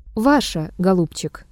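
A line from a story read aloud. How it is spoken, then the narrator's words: Calm objection. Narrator (Russian): также спокойно возразил Триродов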